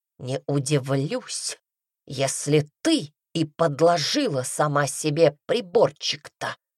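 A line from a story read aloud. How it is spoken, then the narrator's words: Hissing. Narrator (Russian): прошипел он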